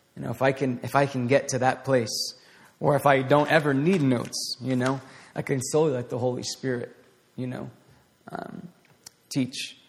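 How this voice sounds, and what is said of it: Raspy voice. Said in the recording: “my voice is all getting really raspy”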